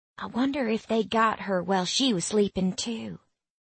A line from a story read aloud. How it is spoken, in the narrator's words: Willa whispers